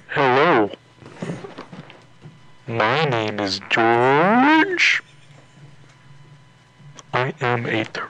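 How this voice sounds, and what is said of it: Silly funny turtle character voice. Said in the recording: “A funny voice.”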